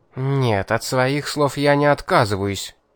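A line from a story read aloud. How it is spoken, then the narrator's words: Angry. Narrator (Russian): сердито мотнула головой Кейтлин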